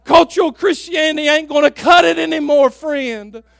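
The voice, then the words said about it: Loud, yelling delivery. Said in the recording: “I'm sorry if it sounds like I'm yelling at you.”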